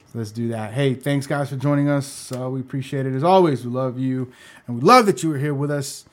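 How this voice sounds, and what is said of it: Yelling, excited loud voice. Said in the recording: “Why are you yelling? ... Because I get excited.”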